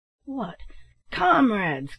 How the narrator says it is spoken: cried Black Jim with an oath

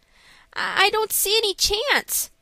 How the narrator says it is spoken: said Frank, looking anxiously

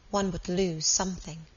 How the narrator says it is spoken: murmured Helen, apparently to herself

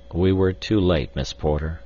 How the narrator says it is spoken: replied sadly

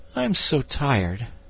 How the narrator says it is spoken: he gave a great sigh and said

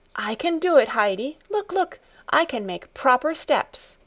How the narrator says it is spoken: she called out

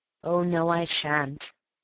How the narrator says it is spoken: said gloomily

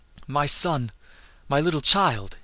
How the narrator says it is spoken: he cried, in a choked, trembling voice

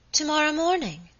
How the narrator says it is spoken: exclaimed my lady, looking up suddenly

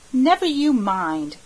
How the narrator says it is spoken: cried the Story Girl loyally

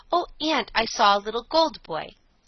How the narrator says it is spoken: She cried to her aunt

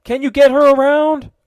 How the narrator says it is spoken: cried the lieutenant above the roar of the gale

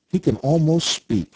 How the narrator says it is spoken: cried Nikita

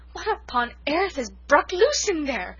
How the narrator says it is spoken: gasped Cousin Sophia

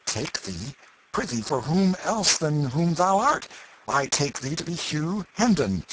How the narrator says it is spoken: said Miles sharply

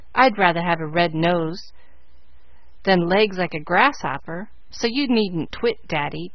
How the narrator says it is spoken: growled Joe

